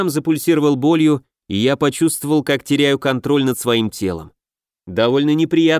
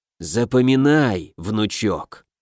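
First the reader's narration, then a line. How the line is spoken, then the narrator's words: Mumble. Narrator (Russian): пробормотало мое тело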